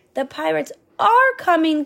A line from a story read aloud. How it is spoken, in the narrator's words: gasped the villagers